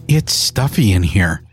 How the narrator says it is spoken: Vicky mutters

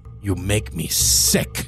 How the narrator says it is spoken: spat

